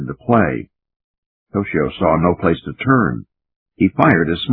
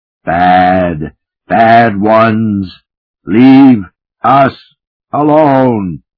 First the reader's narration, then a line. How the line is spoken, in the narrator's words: It was a roar of rejection